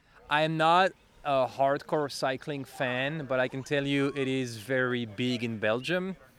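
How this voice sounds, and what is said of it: Belgian French accent. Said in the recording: “I'm originally from Belgium. You can hear I have an accent. I speak French”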